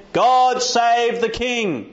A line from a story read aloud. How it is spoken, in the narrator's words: all the people shouted and said